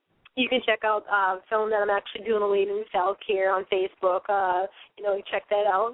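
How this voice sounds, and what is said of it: Hoarse, fading voice. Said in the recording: “I'm losing my voice here, but I'm going to have to make some tea after the show”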